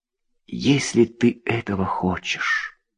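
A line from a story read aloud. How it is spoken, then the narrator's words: Tender whisper. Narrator (Russian): нежно прошептала она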